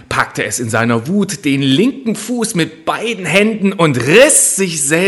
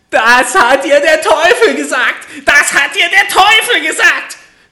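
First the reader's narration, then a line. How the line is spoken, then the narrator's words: Little man shouting furiously. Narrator (German): schrie das Männlein vor Zorn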